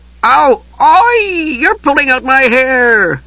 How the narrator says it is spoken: the Kender wailed

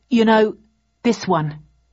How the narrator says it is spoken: I said firmly

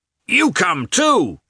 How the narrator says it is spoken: shouted a peasant to Levin

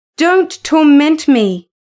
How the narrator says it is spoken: cried

